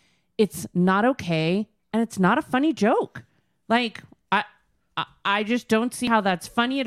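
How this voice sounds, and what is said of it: Usual voice. Nothing is said of it.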